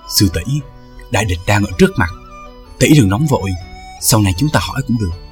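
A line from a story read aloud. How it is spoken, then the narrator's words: Quiet, restraining. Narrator (Vietnamese): Trương Tiểu Phàm trông thấy tinh thần rung động, khẽ nói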